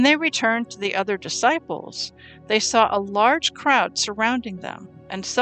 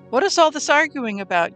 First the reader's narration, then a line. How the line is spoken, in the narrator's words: Yeshua asked